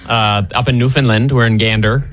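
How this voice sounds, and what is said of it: Put-on Newfoundland accent. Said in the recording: “that Newfoundland accent ... Oh, that's good. ... it's like Canadian Irish, like smashed together ... You guys crushed that.”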